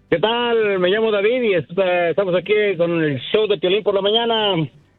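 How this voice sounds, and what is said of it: Radio announcer-style voice. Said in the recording (Spanish): “voz de locutor, de viejón”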